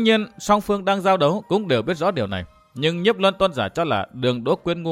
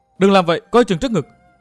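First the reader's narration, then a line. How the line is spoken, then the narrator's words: Alarmed cry. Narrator (Vietnamese): Vi tiểu nữ hoảng hốt kêu lên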